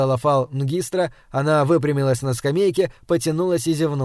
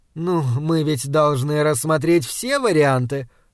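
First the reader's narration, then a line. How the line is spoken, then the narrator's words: Laughing. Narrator (Russian): рассмеялась Фал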